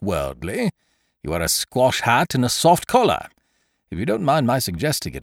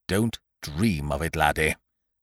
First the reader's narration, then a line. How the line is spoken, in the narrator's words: said Ukridge earnestly